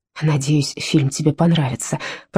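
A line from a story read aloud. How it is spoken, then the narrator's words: Whisper. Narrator (Russian): прошептал Вита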